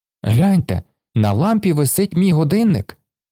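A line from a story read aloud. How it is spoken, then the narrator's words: Exclaiming. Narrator (Ukrainian): вигукнув Оскар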